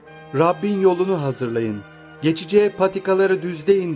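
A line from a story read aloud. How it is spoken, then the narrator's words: Crying out in desert. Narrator (Turkish): çölde haykıran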